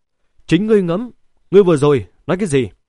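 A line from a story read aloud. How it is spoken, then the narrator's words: Cold, breathless. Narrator (Vietnamese): không tiếng động mà thở hổn hển một hơi, lãnh đạm nói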